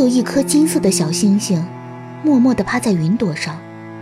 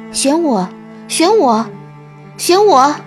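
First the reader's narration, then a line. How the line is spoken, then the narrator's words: Eager clamoring voices. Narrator (Chinese): 他们争先恐后的叫着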